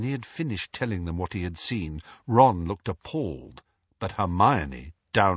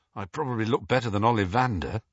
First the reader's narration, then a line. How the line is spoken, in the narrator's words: said Harry shakily